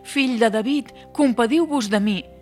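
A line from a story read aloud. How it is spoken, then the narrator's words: Shouting even louder. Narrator (Catalan): Tothom el renyava per fer-lo callar, però ell cridava encara més fort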